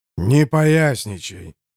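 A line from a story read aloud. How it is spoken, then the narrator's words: Weary growl. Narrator (Russian): устало рыкнула его светлость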